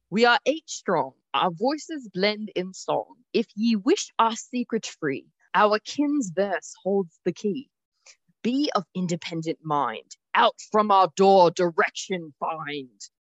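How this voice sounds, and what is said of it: Put-on British accent, hard to understand. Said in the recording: “reading the clues in a British accent ... it's a little hard to understand”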